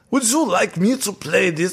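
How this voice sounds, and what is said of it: Put-on Austrian accent. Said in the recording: “Oh, that's a horrible Austrian. ... No, that was good. Yeah, that you sounded very good.”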